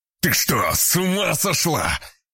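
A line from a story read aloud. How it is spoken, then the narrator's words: Shouted. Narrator (Russian): крикнул Влад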